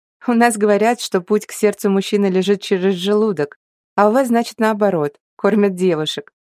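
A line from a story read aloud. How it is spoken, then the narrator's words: Said through laughter. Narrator (Russian): сквозь смех сказала она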